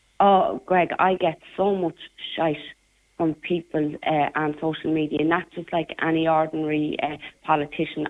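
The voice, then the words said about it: Working-class Irish traveller dialect. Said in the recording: “I get it because of the way I speak. I'm from a very working class area in Ballyfermot ... I'm also a member of the traveller community. So obviously my dialect is very different than other politicians”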